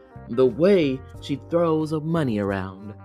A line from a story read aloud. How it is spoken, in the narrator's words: her stepsister exclaimed